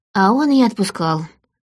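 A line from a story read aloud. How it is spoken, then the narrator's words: Sigh. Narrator (Russian): вздохнула я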